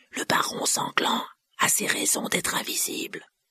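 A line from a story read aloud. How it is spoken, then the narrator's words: Hoarse voice. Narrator (French): dit-il d'une voix rauque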